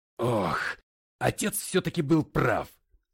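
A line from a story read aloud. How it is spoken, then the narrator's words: Sharp shout. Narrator (Russian): прикрикнул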